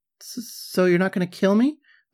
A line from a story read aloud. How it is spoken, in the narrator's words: I stammered